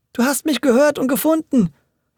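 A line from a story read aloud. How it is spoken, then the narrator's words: Joyful call. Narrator (German): rief Audencio voller Freude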